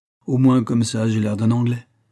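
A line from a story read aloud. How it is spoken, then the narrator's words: Exclamation. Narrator (French): s'écria-t-il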